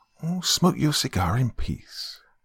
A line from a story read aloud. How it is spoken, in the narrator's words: she said quietly